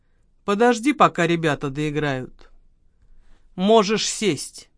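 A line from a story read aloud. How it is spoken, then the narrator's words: Lazy, menacing speech. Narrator (Russian): страшный человек лениво кивнул ему и проговорил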